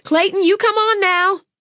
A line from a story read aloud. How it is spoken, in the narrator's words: Ada May shouted